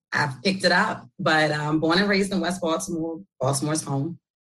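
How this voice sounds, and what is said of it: New York accent. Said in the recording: “I'm often told I have like this New York accent.”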